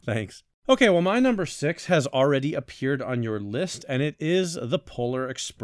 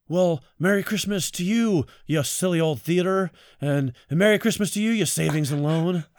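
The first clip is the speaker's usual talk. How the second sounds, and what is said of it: Imitates another person's voice. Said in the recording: “my one impression, Nicolas Cage”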